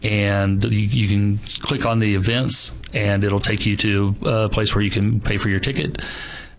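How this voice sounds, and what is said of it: Slight drawl. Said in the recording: “Every once in a while, I'm getting a little bit of a drawl coming from you.”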